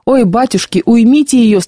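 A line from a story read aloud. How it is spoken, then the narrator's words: Moaning. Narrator (Russian): стонала Варвара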